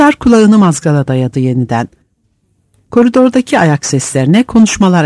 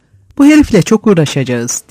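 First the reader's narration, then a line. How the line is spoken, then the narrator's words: Laughing. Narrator (Turkish): diyerek güldü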